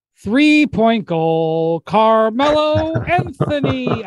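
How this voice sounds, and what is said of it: Bad Knicks PA announcer impression. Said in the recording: “Mike Walczewski, the legendary Knicks PA announcer ... That's a terrible impression”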